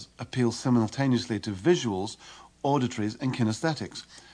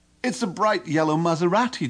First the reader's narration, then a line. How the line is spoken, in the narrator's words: John exclaims